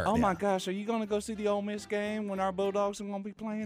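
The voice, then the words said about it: Put-on Southern Ole Miss accent. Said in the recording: “That's that hottie toddy accent.”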